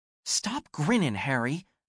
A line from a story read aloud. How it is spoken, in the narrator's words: Anne hissed